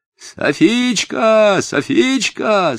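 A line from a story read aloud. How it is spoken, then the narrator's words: Yelling from afar. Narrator (Russian): снова с дерева заорал Нури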